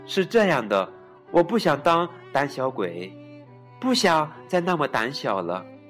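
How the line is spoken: Quiet. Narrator (Chinese): 本小声的说

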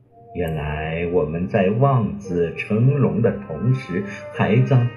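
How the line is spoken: Reflective sigh. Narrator (Chinese): 文静不由得感叹了一句

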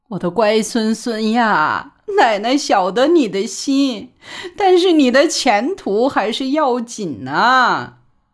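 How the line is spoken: Crying. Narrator (Chinese): 哭，说

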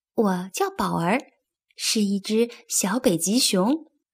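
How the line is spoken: Soft. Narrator (Chinese): 宝儿轻声说

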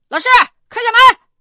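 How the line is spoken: Raised voice, calling. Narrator (Chinese): 所以我就提高嗓门喊了一声

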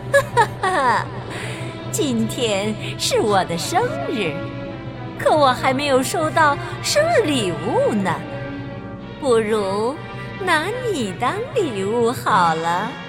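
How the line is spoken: Sinister laughing. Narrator (Chinese): 乌苏拉奸笑着对艾达拉说

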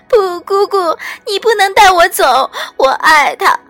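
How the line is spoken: Terrified, crying. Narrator (Chinese): 他满脸惊恐状，边哭

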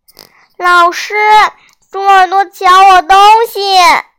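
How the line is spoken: Loud shout. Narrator (Chinese): 他大声叫起来

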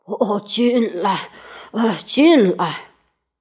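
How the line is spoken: Breathless. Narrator (Chinese): 圆胖医生就气喘吁吁地说

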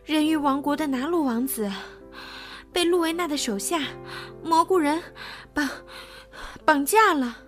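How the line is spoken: Breathless, panting. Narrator (Chinese): 海蝴蝶气喘吁吁地说

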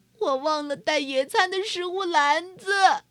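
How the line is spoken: Duck sighing. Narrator (Chinese): 鸭子叹气说

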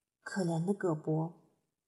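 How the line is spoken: Sighing. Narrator (Chinese): 他又叹息道

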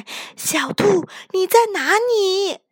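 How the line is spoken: Loud shout. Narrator (Chinese): 雪孩子……大声喊

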